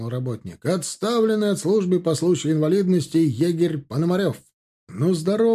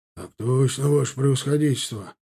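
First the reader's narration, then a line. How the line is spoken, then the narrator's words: Embarrassed hoarse wheeze. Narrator (Russian): покраснев, просипел тот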